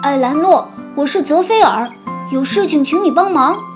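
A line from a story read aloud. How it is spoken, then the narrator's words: Calling out repeatedly. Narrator (Chinese): 连喊三遍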